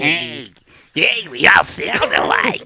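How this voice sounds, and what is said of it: Fantasy creature character voice. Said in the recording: “You sound like you're from Dark Crystal... that's a really good. That's really good.”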